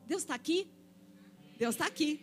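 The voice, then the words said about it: Imitates another person's voice. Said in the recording (Portuguese): “eu estou imitando aquele xaropinho”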